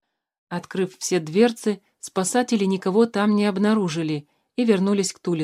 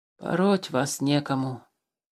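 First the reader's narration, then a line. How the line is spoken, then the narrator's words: Grumbling. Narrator (Russian): пробурчал Тулис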